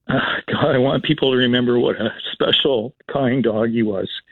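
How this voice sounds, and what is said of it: Emotional, choked-up voice. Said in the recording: “I'm getting a bit emotional.”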